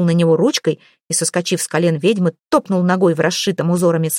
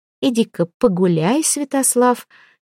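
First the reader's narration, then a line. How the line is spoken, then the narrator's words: Gentle, to a child. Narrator (Russian): мягко направила она малыша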